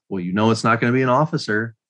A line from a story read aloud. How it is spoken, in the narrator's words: somebody yell